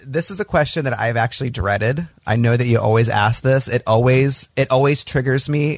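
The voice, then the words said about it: Slight Michigan American accent. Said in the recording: “I still do have a bit of a Michigan accent. And we stress like as and ah sounds.”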